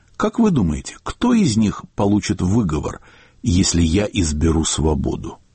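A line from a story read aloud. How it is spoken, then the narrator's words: Calm, serious. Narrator (Russian): Слуцкий сказал, без намека на шутку, спокойно и серьезно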